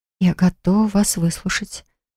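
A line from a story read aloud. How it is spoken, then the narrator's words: Breathless whisper. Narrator (Russian): прошептала, едва дыша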